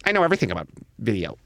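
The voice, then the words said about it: Imitates another person's voice, poorly. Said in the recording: “That's not a good Tarantino impression, is it?”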